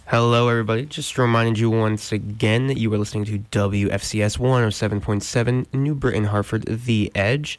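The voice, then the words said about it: Slightly raspy, under-the-weather voice. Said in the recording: “I'm a little under the weather, so I apologize if I sound a little raspy”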